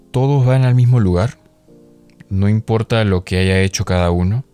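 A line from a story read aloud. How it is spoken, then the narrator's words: Uncertain voice. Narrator (Spanish): preguntó con voz insegura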